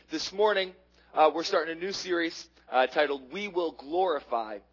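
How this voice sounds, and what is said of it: Low, hoarse voice from a cold. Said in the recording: “battling colds or flus ... you have to listen to me and my voice ... my voice is incredibly low right now ... I'll be a little lower. I have cough drops”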